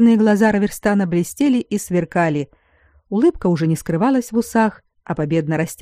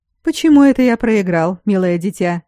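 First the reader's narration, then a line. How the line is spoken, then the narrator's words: Cheerful surprise. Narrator (Russian): весело удивился магистр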